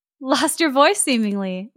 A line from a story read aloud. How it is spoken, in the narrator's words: laughed Mrs